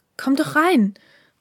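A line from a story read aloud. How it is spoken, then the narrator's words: Called out. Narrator (German): rief die Stimme des heutigen Haruki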